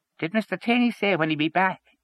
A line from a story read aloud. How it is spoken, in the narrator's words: he asked in a husky falsetto